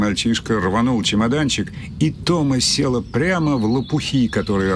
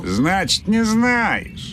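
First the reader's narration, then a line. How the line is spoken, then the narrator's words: Boy guffawing. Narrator (Russian): захохотал мальчишка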